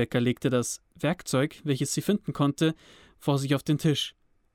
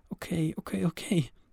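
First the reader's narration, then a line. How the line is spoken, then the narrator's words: Soft whisper to herself. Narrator (German): flüsterte sie leise vor sich hin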